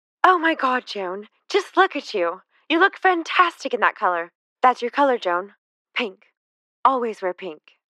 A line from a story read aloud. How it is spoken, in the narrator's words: When Jackie saw her, she exclaimed